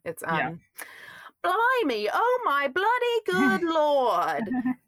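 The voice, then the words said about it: Put-on English accent. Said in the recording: “I picked up an English accent while I was there. Would you like to hear it?”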